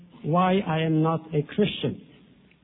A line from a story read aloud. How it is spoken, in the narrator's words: he said